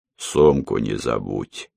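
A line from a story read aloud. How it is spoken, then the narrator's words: Deep bass voice. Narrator (Russian): пробасил водитель своему пассажиру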